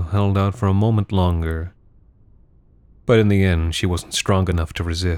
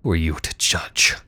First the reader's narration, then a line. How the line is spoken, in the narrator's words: She hissed